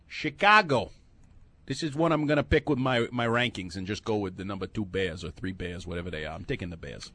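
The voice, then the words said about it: Put-on New York accent, not good. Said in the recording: “Why are you doing a New York accent for Chicago? ... I was trying to do the guy that does the overnight. I'm not good at accents.”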